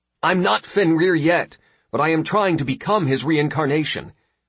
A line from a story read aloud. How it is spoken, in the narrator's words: I shouted to the goddess